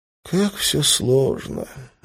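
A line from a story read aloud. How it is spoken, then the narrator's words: Sighing. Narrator (Russian): вздохнул Лас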